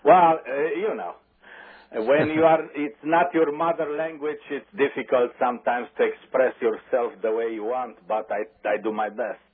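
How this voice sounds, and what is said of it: Strong non-native accent. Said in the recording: “you have a strong accent”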